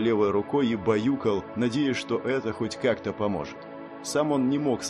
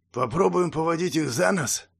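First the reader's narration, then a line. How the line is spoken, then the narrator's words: Hoarse question. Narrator (Russian): хрипло спросил Ханс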